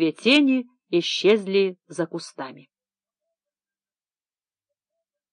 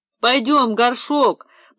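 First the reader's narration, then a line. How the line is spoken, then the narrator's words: Tearful voice. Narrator (Russian): плачущим голосом произнес второй парень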